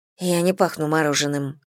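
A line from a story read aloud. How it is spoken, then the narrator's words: Grumbling. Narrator (Russian): проворчала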